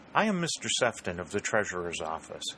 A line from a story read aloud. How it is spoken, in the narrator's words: he said in the same even tones, smooth with the smoothness of metal